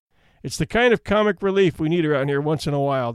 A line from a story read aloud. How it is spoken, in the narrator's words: the judge laughed